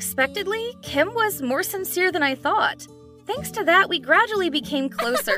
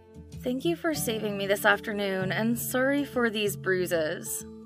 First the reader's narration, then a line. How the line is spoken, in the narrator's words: suddenly fell silent and mumbled